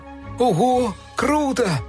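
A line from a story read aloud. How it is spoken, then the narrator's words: Shouting. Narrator (Russian): кричали они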